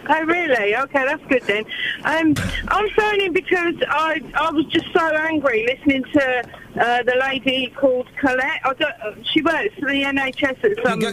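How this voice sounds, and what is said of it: Raised, loud speaking voice. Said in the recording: “I'm sorry if I sound like I'm shouting, but this has got the Bluetooth in the roof, so I have to raise my voice.”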